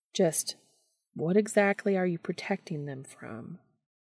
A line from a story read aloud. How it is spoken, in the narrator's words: Dean asked gently